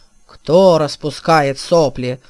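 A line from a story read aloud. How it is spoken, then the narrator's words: Roaring. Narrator (Russian): взревел он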